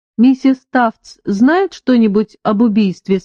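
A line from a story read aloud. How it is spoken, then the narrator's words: Plain. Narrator (Russian): спросил я Уильяма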